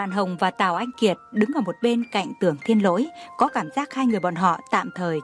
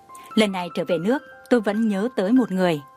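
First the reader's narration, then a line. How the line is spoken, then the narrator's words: Smiling. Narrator (Vietnamese): Lauren mỉm cười mới nói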